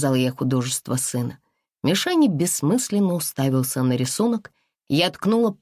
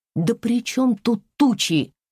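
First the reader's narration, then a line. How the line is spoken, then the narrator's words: Sharp rebuke. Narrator (Russian): прикрикнула я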